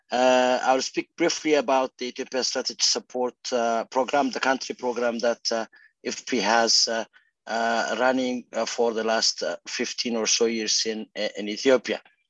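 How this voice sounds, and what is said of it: Impaired, unwell-sounding voice. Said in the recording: “apologize for my voice. I am recovering from COVID at the moment, so bear with me.”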